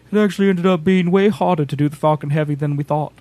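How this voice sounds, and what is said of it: Imitates another person's voice. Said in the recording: “That's my Elon Musk impression.”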